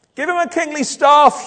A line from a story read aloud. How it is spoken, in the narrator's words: someone shouts